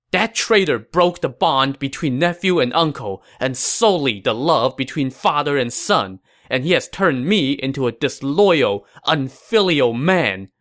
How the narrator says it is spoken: Liu Feng said angrily

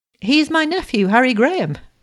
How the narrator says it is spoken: exclaimed Mr

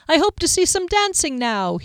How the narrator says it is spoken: cried

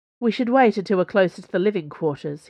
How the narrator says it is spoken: he said

